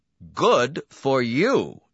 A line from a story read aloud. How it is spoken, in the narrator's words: Donati exclaimed